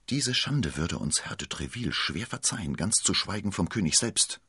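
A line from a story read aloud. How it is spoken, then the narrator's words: Whisper. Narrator (German): flüsterte Aramis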